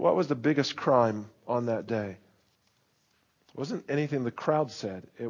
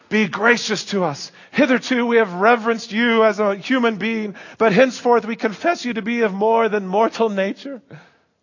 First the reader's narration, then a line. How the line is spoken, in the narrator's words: the people cried out